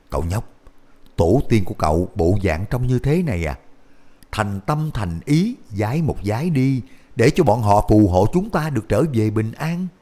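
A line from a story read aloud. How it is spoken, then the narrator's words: Whisper. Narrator (Vietnamese): Minh Thúc thì thào nói với Cổ Thái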